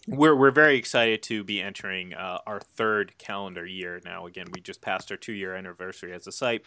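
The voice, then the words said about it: Strained, fading voice. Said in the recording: “I'm losing my voice a little bit.”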